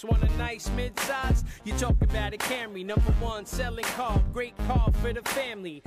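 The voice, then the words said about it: Speaks with a noticeable accent. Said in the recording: “You hear that accent, right?”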